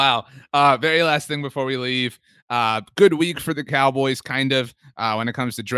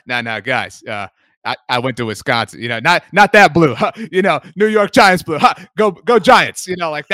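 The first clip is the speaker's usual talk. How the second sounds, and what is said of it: Imitates another person's voice. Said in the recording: “a really good impersonation of Russell Wilson”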